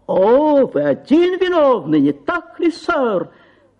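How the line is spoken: Angry shout. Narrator (Russian): закричал мистер Магнус

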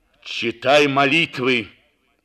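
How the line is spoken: Terrible voice. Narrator (Russian): повторил Матео ужасным голосом

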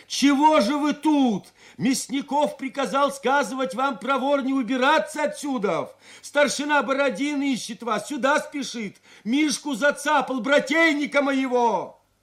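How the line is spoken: Shout from horseback. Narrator (Russian): Степан Кожевников закричал с седла

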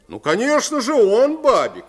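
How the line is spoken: Exclaimed with feigned zeal. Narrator (Russian): воскликнул Майк с наигранным усердием

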